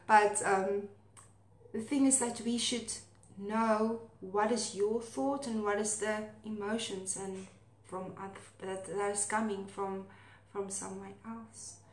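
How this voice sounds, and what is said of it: Afrikaans-accented English. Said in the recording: “my Afrikaans accent”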